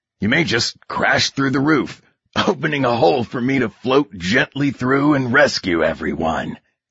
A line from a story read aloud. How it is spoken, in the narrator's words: he says with a chuckle